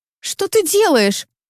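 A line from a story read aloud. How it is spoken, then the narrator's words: Frightened squeal. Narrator (Russian): испуганно взвизгиваю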